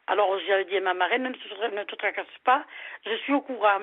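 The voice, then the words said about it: Southern French Toulouse accent. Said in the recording (French): “C'est quoi ce joli accent que vous avez, c'est Sud ? ... Toulouse”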